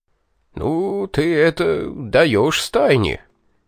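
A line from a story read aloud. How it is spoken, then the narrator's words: Bewildered old man. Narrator (Russian): наконец растерянно вымолвил дед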